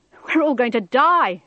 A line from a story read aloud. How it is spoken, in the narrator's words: screamed a man